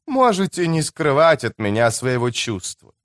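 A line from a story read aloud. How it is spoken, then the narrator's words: Gentle, tearful persuasion. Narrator (Russian): мягко убеждала она с выступившими на глазах слезами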